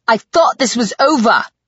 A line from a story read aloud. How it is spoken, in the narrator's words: Adrian exclaimed